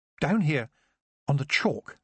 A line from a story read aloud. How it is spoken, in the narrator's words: she said